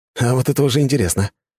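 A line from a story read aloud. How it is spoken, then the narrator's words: Wry snort. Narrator (Russian): хмыкнул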